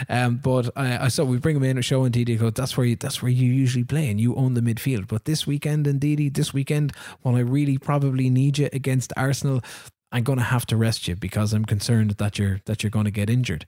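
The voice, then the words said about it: Put-on weird French-like accent. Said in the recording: “You were doing an accent there. You were straight out doing an accent. ... Maybe it's French? Like kind of like weird French.”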